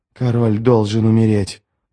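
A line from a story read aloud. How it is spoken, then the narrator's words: Hissed. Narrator (Russian): прошипел он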